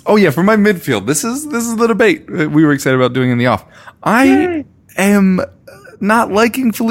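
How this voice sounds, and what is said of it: Usual voice. Nothing is said of it.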